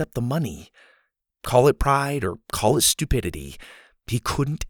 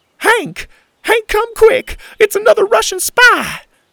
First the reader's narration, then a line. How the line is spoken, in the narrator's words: cried the little old lady in the neighboring backyard